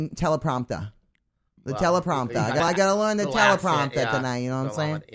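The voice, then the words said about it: Put-on New England Maine accent. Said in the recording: “Be like from Maine ... A New England accent, you know? ... no, I don't really talk like that. I do a non-regional dialect.”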